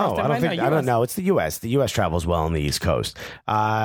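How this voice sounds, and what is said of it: Usual voice. Nothing is said of it.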